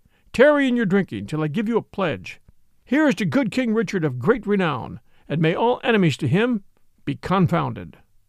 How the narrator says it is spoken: cried he

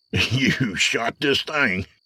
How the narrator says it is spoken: Colt said, laughing

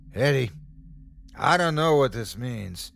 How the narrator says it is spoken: he yelled to me

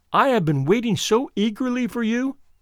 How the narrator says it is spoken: she cried

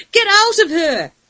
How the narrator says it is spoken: Ashimay screamed, tears she had held until now breaching her defences

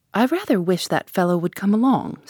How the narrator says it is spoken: said Julius

